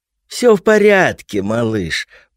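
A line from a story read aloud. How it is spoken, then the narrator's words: Soft cooing. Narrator (Russian): проворковала она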